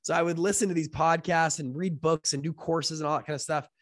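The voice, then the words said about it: Sick, rough-sounding voice. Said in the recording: “excuse my voice. Sorry, I've been a little sick the last couple of days”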